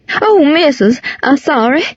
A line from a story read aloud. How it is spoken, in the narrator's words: she cried